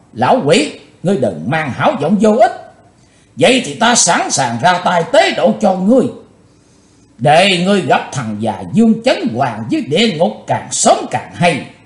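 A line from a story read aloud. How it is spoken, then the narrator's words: Furious loud shout. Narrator (Vietnamese): Chí Tôn nổ giận quát to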